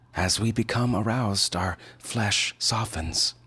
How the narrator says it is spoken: she said

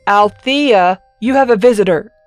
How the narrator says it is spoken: he yelled over his shoulder

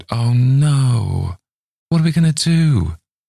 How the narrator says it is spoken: Angela groaned

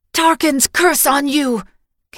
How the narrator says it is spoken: Carica shouted

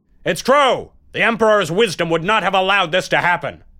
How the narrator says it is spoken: Someone dared to shout out loudly

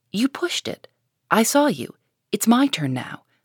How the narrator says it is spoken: said Joe sharply

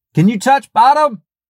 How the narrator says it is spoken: Above the roar of the water and my pounding heart, I heard Nick yell

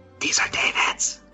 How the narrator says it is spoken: whisper very quietly

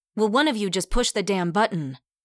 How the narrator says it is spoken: Rosie snapped

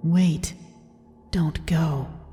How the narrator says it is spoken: as if someone had whispered to me

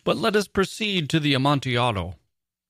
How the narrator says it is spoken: he exclaimed

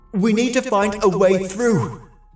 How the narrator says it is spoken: I shouted

